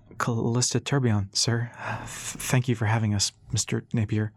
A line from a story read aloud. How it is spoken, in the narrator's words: said shakily